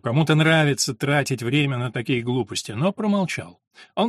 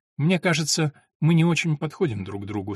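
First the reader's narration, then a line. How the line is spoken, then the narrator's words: Calm. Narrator (Russian): спокойно сказала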